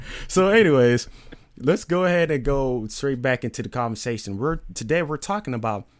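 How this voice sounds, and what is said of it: Usual voice. Nothing is said of it.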